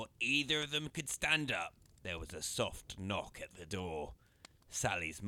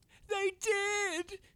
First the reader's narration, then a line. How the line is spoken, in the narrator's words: cried Sally